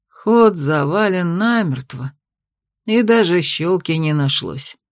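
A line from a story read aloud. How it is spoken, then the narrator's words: Tired quiet voice. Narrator (Russian): устало ... тихо произнес Фелитий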